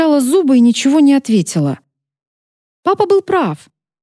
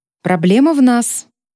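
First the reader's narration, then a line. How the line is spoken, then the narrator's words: Cold. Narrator (Russian): произнесла холодно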